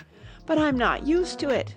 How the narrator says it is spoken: pleaded poor Alice in a piteous tone

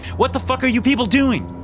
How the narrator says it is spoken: I yelled

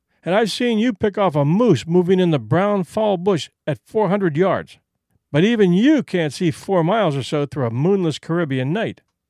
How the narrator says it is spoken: said Whitney with a laugh

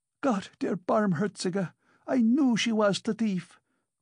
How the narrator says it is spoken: cried Amalia Ivanovna

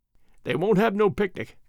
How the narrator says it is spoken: went on Alfred, with a little chuckle

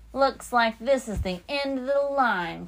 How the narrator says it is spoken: Captain Pete said, laughing

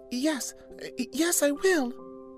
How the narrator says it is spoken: said the little princess in a trembling voice, as she thought of the prince and the immortal soul

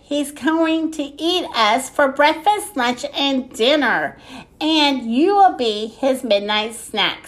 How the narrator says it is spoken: said Ned

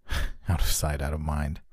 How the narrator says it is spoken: I scoffed

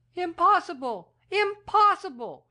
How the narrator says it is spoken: she cried

